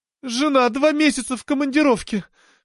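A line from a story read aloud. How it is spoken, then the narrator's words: Sobbing. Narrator (Russian): всхлипывая, вспоминала тень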